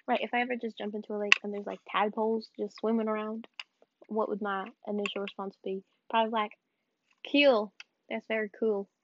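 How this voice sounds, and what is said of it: Speaks with a noticeable accent. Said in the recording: “It sounds wrong when I say it with the accent. I'm saying cool, by the way.”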